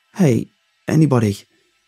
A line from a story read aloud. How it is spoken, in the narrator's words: I shouted down the subway car